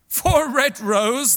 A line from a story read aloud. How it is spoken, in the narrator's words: they cried